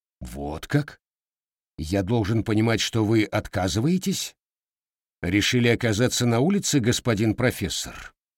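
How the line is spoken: Menacing hiss. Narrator (Russian): зашипел Расти

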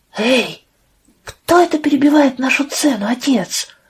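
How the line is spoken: Eager heated whisper. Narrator (Russian): Жарким шепотом спросил Эйб и от нетерпения

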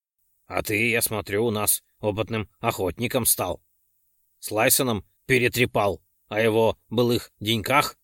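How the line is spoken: Mocking through teeth. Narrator (Russian): Сквозь зубы усмехнулся Ролден

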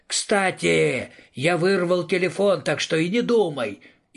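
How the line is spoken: Yelled into darkness. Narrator (Russian): заорал в темноту

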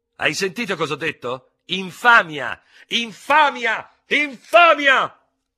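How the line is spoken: Furious screaming. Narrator (Italian): urlava facendosi paonazzo

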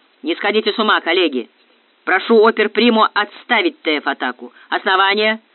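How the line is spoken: Thunderous voice. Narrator (Russian): прогремел Железовский

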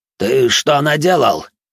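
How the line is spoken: Elder's loud, slightly hysterical voice. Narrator (Russian): Громко и немного истерично начал старейшина

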